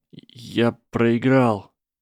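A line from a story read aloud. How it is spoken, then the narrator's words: Strained, forced out. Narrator (Russian): выдавил Гарри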